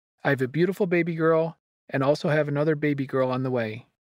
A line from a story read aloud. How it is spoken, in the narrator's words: exclaimed